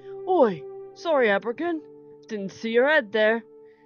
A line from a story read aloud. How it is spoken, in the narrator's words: Rowan said with a chuckle